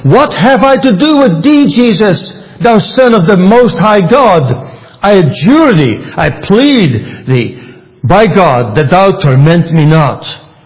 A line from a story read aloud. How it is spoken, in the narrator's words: He cried out with a loud voice